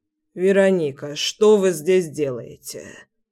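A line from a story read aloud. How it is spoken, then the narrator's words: Hoarse, rusty voice. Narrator (Russian): Его голос звучал сипло, как у человека, который давно не разговаривал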